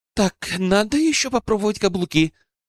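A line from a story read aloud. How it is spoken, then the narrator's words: Forced loud exclamation. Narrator (Russian): пытаясь заглушить собственные мысли, воскликнула Алена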